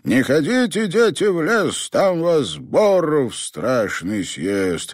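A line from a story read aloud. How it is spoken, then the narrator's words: Ominous croaking shout. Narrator (Russian): он кричал зловещим, каркающим голосом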